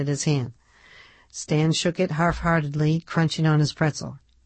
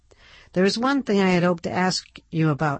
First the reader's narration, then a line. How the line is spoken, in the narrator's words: Ned said, his voice clear and hopeful